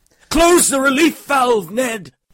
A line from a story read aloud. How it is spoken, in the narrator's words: cried at the limit of his lungs